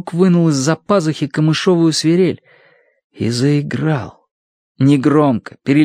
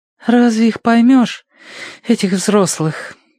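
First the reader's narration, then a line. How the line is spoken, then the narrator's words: Sigh. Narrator (Russian): вздохнула Прошка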